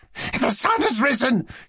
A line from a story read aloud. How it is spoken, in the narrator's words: he cried to Mushkin